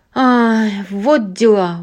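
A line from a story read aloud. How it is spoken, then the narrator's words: Exclaiming. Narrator (Russian): воскликнул Джимми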